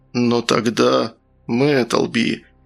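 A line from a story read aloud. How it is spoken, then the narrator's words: Sighing. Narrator (Russian): Фигаро вздохнул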